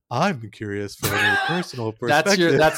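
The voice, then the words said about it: Exaggerated sultry phone-line voice. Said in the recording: “my podcast voice ... You're confusing your podcast voice with your 1-900 voice”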